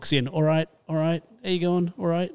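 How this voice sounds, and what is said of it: Poor put-on Manchester accent. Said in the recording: “That's a terrible Manchester accent”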